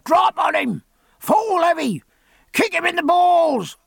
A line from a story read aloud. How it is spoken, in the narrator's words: bellowed the Woolcombe House supporters on either side of Jack and far up the hill behind him